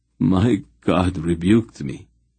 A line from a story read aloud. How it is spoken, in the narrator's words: Relg groaned, his voice sinking into a kind of sick self-loathing